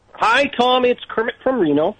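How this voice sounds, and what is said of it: Kermit the Frog voice. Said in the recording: “your Kermit the Frog impression”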